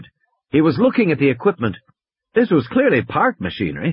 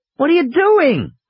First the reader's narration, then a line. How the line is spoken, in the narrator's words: Lex shouted